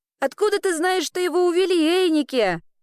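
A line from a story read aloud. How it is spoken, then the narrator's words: Loud repetition. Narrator (Russian): громко повторила Элли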